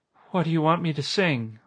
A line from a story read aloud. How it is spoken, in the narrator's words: Alma asked in a trembling voice